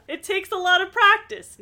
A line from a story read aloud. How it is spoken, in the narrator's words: Nancy said with a laugh